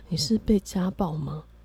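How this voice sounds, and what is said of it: Quiet, hushed question. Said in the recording (Chinese): “他还很凝重的看着我说，然后小声的说”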